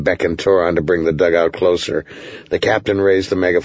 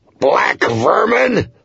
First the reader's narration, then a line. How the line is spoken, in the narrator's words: snarled